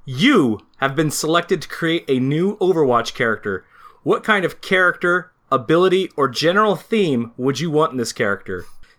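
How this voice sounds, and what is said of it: Impression of Jeff Kaplan. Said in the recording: “in your best Jeff Kaplan voice”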